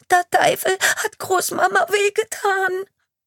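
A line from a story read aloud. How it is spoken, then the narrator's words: Sobbing girl blurting out. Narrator (German): stößt das Mädchen schluchzend aus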